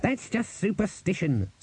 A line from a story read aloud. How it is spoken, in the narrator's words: snapped Cleet